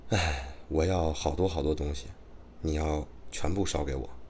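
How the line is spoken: Sighing woman. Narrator (Chinese): 婶婶呢叹了口气说

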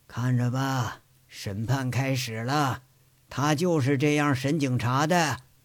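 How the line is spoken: Old man, detached. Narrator (Chinese): 这老头淡淡的说

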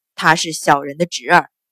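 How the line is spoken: Low voice. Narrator (Chinese): 钱管事低声道

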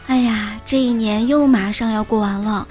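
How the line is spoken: Exclaiming in wonder. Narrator (Chinese): 你时不时就会惊叹

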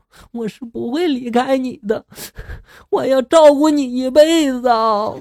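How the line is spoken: Crying. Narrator (Chinese): 女子哭着说道

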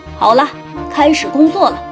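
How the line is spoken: Loud. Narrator (Chinese): 驾驶员大声说

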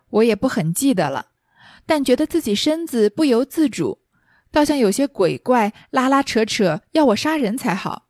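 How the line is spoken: Laughing. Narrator (Chinese): 凤姐笑道

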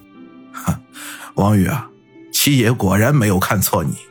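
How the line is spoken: Light smirk. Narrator (Chinese): 陈六的嘴角勾起一抹轻笑来

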